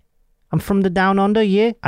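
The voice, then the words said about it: Attempted Australian accent. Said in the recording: “I can't do an Australian accent and I'm trying like hell”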